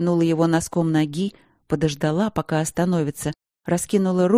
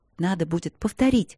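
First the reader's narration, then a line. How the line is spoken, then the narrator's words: Whisper. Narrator (Russian): сказала она шепотом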